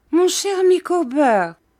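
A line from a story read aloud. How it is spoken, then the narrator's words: Wife exclaiming. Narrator (French): s'écria sa femme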